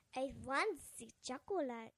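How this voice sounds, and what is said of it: Put-on German accent character voice. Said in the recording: “a Swedish voice, like an Augustus Gloop ... a German accent ... I was Augustus Gloop”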